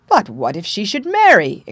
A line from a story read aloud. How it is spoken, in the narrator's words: exclaimed the king, in sudden consternation of the idea